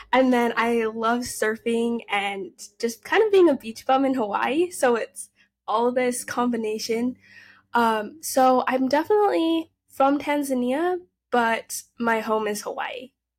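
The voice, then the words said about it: Utah American accent. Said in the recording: “I have a Utah accent... That's the Utah accent with the surfer attitude”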